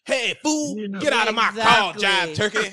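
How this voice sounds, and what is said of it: Bad jive-talk impression. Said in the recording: “bad jive impression”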